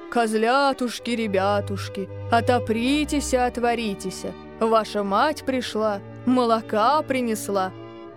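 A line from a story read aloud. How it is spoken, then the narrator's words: Deep singing voice. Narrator (Russian): запел своим толстым голосом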